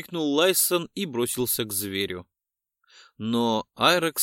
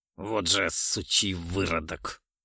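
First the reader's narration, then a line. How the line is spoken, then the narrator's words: Through gritted teeth. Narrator (Russian): Сквозь зубы процедил Ролдан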